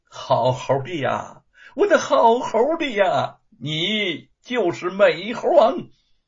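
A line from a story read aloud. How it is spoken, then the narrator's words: Laughing, sudden realization, repeated. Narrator (Chinese): 吴承恩恍然大悟，笑着连声说道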